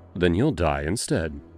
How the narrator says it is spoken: I said simply, my voice cold as ice

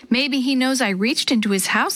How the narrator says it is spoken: Sammy said

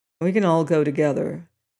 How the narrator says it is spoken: he said sullenly

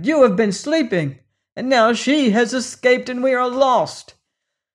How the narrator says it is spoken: cried

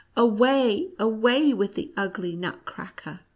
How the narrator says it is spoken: the princess cried

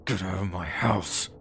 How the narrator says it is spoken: I just growled

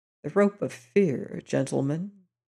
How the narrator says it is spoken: he said quietly

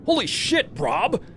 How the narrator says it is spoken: Kevin yelled

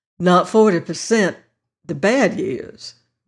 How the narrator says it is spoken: replied the Virginian

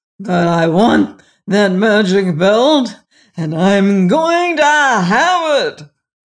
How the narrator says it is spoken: roared the Gnome King

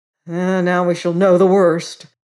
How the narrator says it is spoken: growled and shivered the afraid ones

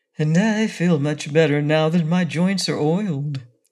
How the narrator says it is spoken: returned the Tin Woodman with a sigh of pleasure

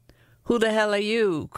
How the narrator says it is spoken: cried Lucia

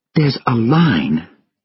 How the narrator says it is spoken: Sylvia said angrily in Koo

